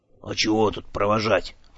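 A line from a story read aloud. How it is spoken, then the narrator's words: Grumbling. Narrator (Russian): проворчал Дримарондо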